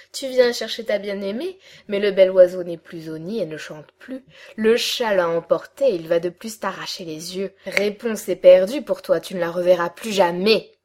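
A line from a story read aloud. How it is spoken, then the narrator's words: Sneering cackle. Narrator (French): ricana-t-elle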